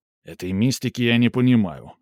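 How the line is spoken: Sharp. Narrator (Russian): резко сказал Михаил

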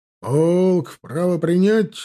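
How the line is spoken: Barked command. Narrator (Russian): рявкнул Штекельберг

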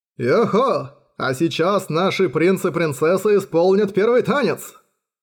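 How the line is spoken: Cheerful shouting into microphone. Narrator (Russian): Бодро орал Джан Шань в микрофон

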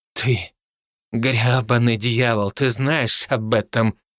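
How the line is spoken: Angry through teeth. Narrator (Russian): процедил он со злостью

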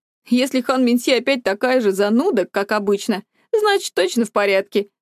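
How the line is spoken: Snort. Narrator (Russian): хмыкнул

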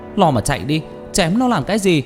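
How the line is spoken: Loud shout. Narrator (Vietnamese): Tôi hét lớn

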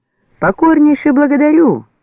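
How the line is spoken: Bellowing at full voice. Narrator (Russian): во весь голос заорал тот

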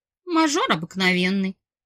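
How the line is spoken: Snorted. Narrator (Russian): фыркнула я

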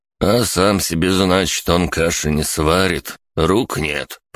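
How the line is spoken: Grumbled. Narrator (Russian): проворчал Агис

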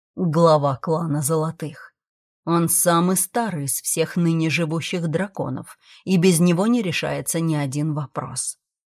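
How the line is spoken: Quiet. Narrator (Russian): тихо проговорил Эйст

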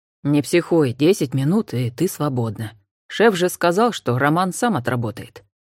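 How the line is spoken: Quiet. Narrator (Russian): тихо сказал Олег Анфисе

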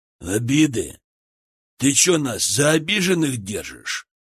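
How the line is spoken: Rough male voice. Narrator (Russian): Грубым голосом поинтересовался мужчина с кинжалом

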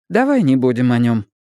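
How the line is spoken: Sharp. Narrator (Russian): Мэтти резко сказала

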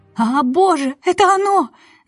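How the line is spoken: Shouted. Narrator (Russian): закричала она

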